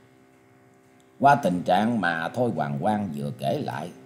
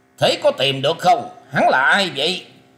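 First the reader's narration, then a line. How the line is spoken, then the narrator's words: Impatient shout. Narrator (Vietnamese): Thương Lục Kỳ sốt ruột quát lên rằng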